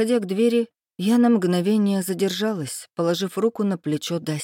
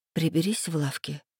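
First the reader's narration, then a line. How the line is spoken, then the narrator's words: Said quietly. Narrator (Russian): тихо сказала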